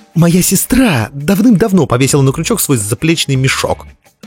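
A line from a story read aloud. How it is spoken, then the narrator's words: Sharp speech. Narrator (Russian): резко сказала Дав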